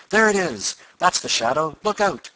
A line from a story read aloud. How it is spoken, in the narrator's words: Tom's chum cried